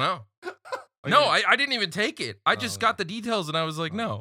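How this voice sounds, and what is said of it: Usual voice. Nothing is said of it.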